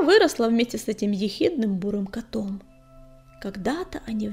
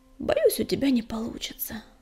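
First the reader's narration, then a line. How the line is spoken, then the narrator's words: Sympathetic sigh, sandstorm voice. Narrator (Russian): вздохнула песчаная буря, сочувственно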